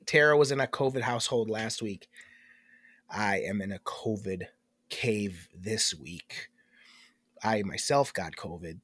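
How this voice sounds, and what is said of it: Voice sounds off, sick. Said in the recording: “my voice is off, clearly. ... My voice is a little off this week.”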